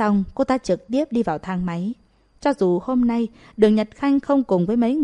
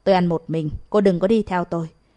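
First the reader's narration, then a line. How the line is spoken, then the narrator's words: Impatient, cold. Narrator (Vietnamese): Hồ Nguyệt Như không có kiên nhẫn, lạnh lùng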